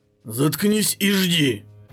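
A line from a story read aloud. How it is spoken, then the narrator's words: Growled, weary man. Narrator (Russian): зарычал мужчина с измученным лицом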